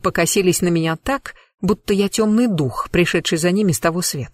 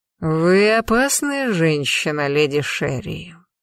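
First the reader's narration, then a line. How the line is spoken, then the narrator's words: Smug drawl. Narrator (Russian): довольно протянул некромант, словно в этом была его личная заслуга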